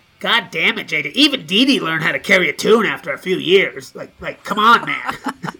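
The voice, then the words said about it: Imitates another person's voice. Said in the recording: “impersonations I could do of him”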